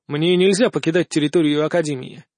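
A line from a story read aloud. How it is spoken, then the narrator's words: Dry reply. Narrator (Russian): сухо ответил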